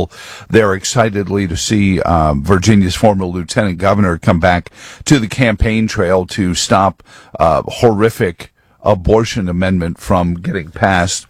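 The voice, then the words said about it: Strained, worn voice from overuse. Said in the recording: “as you can probably hear in my voice, talking over a din of hundreds upon hundreds of people”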